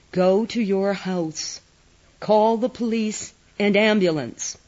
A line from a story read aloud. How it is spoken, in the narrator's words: said, his voice calm